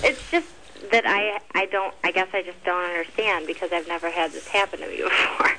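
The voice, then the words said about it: Michigan accent. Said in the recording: “Michigan accent ... non-Burbankian ... I heard the Michigan accent”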